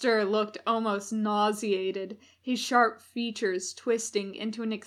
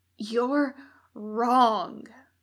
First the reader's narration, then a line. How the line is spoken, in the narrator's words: Crowley gasped